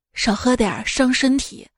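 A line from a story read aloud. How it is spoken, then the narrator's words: Gentle, tender. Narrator (Chinese): 温柔的说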